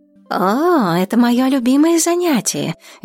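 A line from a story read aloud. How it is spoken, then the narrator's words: Cheerful reply. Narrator (Russian): весело ответила Грыся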